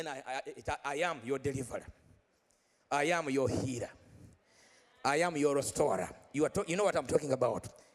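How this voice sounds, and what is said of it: Speaks English with an accent. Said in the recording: “You understand my accent?”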